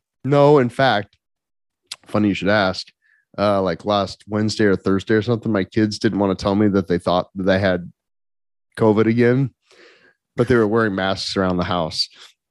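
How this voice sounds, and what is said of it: Congested voice with coughing. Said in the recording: “you get to hear me cough while I'm doing it because I have a cold.”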